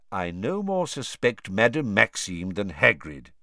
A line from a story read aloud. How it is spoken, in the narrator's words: said Dumbledore just as calmly